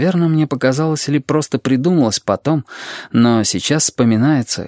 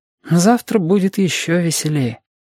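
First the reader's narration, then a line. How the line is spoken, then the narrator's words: Said with a sigh. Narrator (Russian): сказал Сашка и почему-то вздохнул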